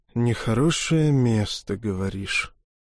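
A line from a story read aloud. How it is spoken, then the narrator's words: Heavy sigh, shaken. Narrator (Russian): Тяжело вздохнул побледневший датчанин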